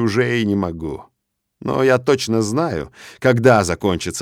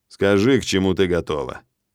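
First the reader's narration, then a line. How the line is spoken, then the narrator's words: Impassive question. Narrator (Russian): Спрашиваю я бесстрастным голосом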